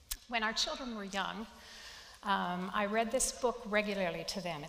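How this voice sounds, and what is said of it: Slightly hoarse voice. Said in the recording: “I'm at the tail end of a summer cold, so my voice is a little hoarse.”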